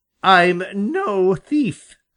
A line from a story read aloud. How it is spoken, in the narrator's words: exclaimed suddenly